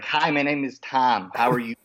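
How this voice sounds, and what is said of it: Nasal Great Lakes accent. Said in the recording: “a Great Lakes accent, which is very nasally”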